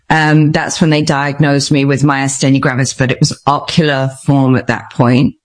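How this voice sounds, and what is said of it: English accent from England. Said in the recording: “I'm obviously from Stratford-upon-Avon in England. You can tell by my accent.”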